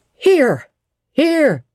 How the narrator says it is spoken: was shouted in return

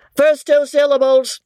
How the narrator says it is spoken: Hassan from within bawls out

